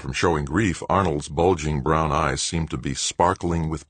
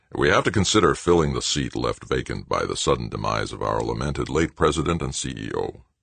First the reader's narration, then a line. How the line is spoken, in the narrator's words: Arnold said in his rumbling bullfrog voice